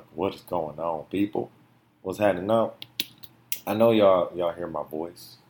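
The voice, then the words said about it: Deeper, hoarse voice. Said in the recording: “My voice sounds a lot um, how can I say deeper and hoarse than normal”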